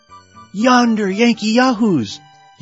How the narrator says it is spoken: yelled Yuri

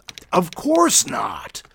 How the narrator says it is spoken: growled God

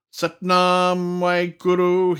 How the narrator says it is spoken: he bellowed loudly

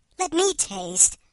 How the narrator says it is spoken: her companion cried

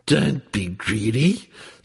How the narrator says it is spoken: snarled the wolf girl

